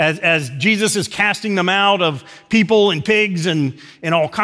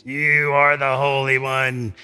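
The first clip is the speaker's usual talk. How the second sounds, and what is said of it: Put-on demon voice. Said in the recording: “That's my demon voice.”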